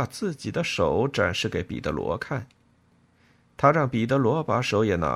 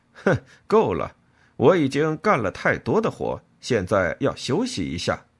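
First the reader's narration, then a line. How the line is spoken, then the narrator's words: Laughing. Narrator (Chinese): 他笑着说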